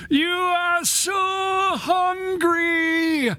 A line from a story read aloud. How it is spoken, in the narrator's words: pushed forward with the howling wind